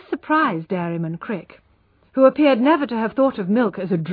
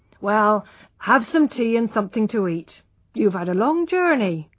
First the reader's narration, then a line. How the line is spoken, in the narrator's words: he said kindly